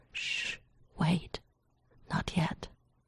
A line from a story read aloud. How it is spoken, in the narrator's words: John murmured